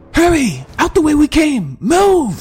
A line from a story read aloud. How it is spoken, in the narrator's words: yelled General Didier